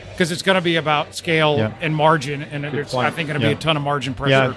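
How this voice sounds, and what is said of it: Speaks with a noticeable accent. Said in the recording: “people with funny accents ... The accent confused me”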